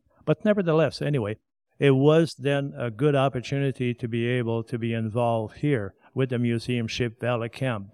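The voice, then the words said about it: Non-native English accent. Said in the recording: “English is my second language... it was somewhat difficult at first trying to pronounce the TH... this is going to be my accent”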